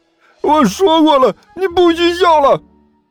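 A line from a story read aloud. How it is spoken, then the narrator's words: Furious, embarrassed loud roar. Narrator (Chinese): 毛老师恼羞成怒的大声吼道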